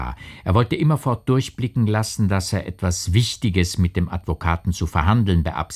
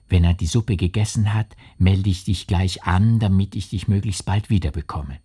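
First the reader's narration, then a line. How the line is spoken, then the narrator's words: Whisper. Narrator (German): flüsterte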